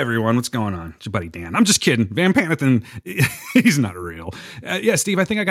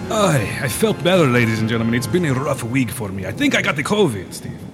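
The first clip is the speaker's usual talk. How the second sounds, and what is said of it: Put-on accent, echoey. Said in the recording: “Let me step out of my cave. It's much too echoey. ... And I'll lose the accent too.”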